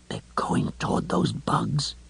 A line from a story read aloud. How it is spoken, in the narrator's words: Lois whispered fiercely